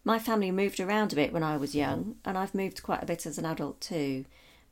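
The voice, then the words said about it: Southern English accent, slightly northern vowels. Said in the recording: “I have a pretty standard southern accent. ... I sound like most people from the south of England, though I've got a slight northern influence to my vowels.”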